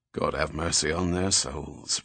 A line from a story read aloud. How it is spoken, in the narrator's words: Fitzjames muttered under his breath